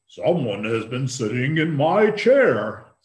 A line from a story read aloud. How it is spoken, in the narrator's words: said the great big father bear in his great big voice